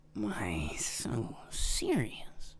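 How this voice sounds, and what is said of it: Imitates the Joker's voice. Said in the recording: “I thought I was bad at the Joker ... Rob's out here cringing from my Joker impersonation.”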